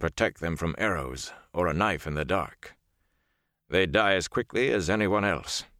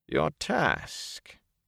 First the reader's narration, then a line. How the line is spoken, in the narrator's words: Niall said, his voice rising